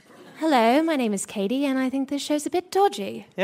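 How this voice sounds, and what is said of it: Put-on British accent. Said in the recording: “I can do a British one”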